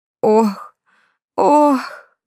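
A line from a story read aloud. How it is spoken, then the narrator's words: Groaning woman. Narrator (Russian): застонала она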